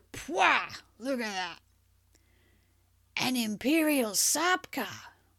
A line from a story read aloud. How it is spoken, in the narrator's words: breathed